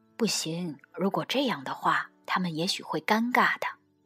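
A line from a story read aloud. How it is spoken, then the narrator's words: Soft whisper. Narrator (Chinese): 老板娘在老板耳边轻声说道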